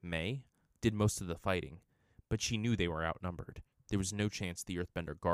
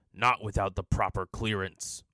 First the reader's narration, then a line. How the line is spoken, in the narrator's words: a guard replied, his voice gravelly and hard